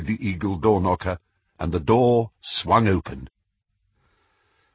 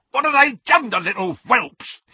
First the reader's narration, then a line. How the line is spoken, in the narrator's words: he screamed